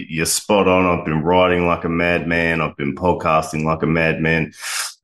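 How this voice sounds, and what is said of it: Australian accent. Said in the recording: “the Australian accent there”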